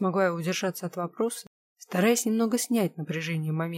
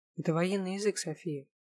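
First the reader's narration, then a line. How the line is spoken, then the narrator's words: Quiet, man. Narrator (Russian): тихо ответил мне мужчина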